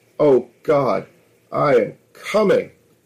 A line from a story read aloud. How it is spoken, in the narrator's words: she cried out